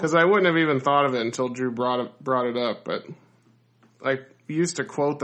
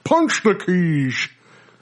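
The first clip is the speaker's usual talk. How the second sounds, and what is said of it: Imitates another person's voice. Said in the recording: “my Sean Connery impression”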